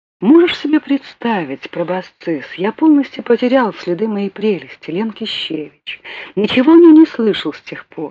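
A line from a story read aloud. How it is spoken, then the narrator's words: Plain. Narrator (Russian): сказал ГТТ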